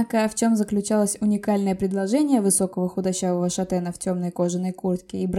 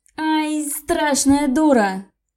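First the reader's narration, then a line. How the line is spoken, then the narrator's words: Loud yell. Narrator (Russian): Заорал он на всю ванную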